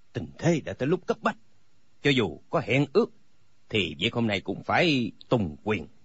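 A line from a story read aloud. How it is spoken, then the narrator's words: Cold. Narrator (Vietnamese): Âu Dương Phong lạnh lùng nói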